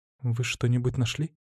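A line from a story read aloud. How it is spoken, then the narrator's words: Whispered. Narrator (Russian): прошептала Марина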